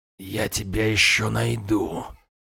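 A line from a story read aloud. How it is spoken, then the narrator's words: Hoarse. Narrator (Russian): хрипло сказал хозяин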